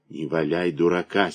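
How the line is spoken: Fierce whisper. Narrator (Russian): свирепо шепнул Новгородов

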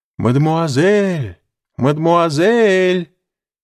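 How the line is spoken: Distant shout from trees. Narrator (Russian): кричал чей-то голос из-за деревьев

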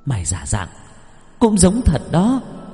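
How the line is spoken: Young woman's hiss. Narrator (Vietnamese): Cô gái áo đỏ vừa thấy bố Tải Nico thì rít lên

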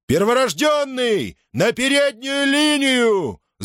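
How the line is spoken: Shout. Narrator (Russian): Закричал он

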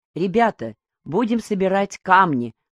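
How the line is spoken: Clear ringing voice. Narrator (Russian): звонким голосом говорит Татьяна Федоровна

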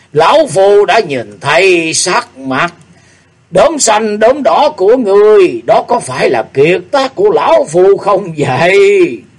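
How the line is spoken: Loud laughing speech. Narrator (Vietnamese): Độc Tý Xài Nhân lại cười lớn nói

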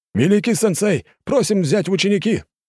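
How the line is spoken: Loud barked crowd chorus. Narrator (Russian): рявкнула вся сотня хором

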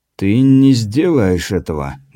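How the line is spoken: Hollow muffled voice. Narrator (Russian): глухо произнес Таракопа

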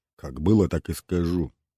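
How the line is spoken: Muttered. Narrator (Russian): буркнул первый

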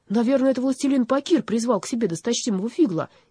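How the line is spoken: Frightened warrior. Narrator (Russian): испуганно сказал один из воинов

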